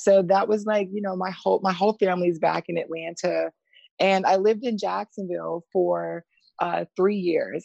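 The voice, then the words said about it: Slight Southern twang. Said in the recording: “do I have a Southern twang? ... There might be a slight twang,”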